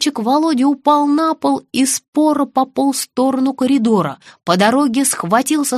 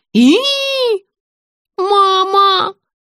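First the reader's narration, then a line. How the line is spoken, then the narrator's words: Squealing. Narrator (Russian): взвизгнула Вера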